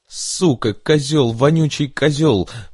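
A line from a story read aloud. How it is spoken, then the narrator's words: Tearful shouting. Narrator (Russian): выкрикивала она сквозь слезы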